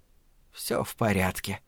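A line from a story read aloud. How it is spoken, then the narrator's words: Muttered. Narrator (Russian): пробормотала Абагейл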